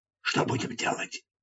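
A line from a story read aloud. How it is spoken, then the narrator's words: Whisper in the ear. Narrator (Russian): Гор Хаджут шепнул мне на ухо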